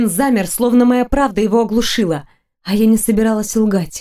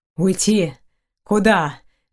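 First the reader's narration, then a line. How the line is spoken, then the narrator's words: Breathless, distraught. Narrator (Russian): выдохнул Дейрен, и я увидела вдруг, что он не в себе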